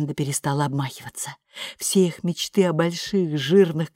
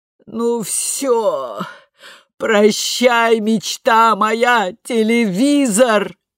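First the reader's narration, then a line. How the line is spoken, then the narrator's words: Wailed. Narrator (Russian): взвыла Бренда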